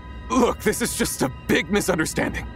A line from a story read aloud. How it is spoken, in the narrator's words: he said desperately